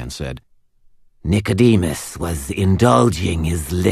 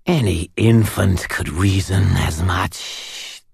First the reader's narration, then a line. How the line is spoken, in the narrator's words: the Denarian hissed